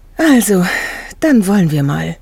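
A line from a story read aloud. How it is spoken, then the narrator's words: Groaned. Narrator (German): stöhnte Gerda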